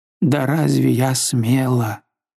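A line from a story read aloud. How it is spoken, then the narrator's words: Moan. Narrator (Russian): Она простонала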